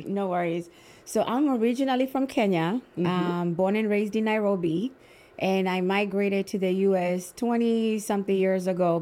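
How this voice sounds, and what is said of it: Kenyan accent. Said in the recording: “they can hear this beautiful accent”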